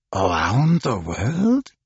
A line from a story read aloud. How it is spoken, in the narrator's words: He muttered